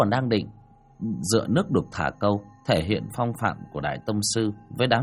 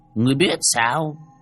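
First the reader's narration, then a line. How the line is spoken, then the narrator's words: Incredulous old man shouting. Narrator (Vietnamese): Lão Trần Toàn có chút không tin được, hét lên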